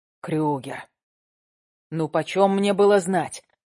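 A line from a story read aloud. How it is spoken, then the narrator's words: Muttering. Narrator (Russian): бормочет Караваев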